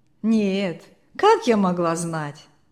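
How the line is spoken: Laughing. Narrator (Russian): засмеялась бабушка

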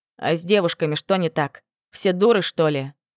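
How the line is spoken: Snort. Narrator (Russian): фыркнул Данте

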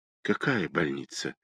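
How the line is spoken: Dejected question. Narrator (Russian): упавшим голосом спросила Лена

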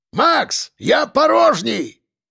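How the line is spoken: Shouted out. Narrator (Russian): выкрикнул Ефим

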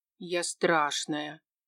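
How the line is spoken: Snort, then announcing. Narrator (Russian): Таня хмыкнула и сообщила

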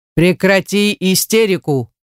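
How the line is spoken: Barked. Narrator (Russian): рявкнул он

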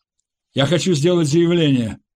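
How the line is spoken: Shout. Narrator (Russian): крикнул Саид

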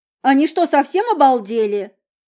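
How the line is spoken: Indignant shout. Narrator (Russian): Возмущенно выкрикнула подруга

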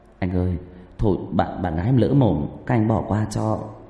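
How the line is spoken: Trembling young man's voice. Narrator (Vietnamese): Người thanh niên mới cố chen cái tấm thân nhỏ bé vào giữa mấy tên xã hội đen kia, giọng run rẩy

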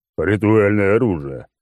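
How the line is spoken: Booming rumble. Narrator (Russian): прогудел клоун

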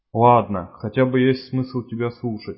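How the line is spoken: Sighing. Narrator (Russian): вздохнул Рябой

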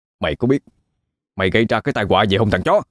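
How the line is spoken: Hot-tempered loud shout. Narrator (Vietnamese): Nam nóng nảy quát lớn

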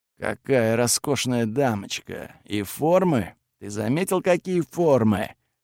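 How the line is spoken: Admiring mutter. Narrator (Russian): восхищенно забормотал Готфред

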